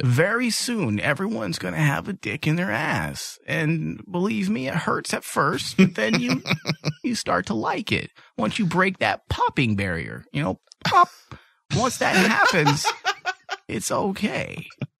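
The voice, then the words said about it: Imitates another person's voice. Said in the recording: “Your impression of Mr. Robertson was just spot on. I got lost in it.”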